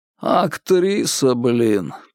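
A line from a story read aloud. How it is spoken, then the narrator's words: Grumbling. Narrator (Russian): проворчал Владимир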